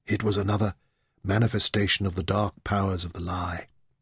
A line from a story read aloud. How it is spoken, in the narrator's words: Demeter muttered